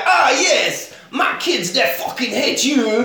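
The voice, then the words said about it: Put-on French accent. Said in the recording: “Is that your French accent? ... It is, yeah, that's my general.”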